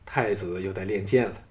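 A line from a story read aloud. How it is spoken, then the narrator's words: Gratified, smiling. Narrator (Chinese): 吕不韦脸上现出了一个欣慰的笑容，说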